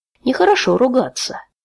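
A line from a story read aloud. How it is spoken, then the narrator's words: Gentle reproach. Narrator (Russian): ласково укорил его Тай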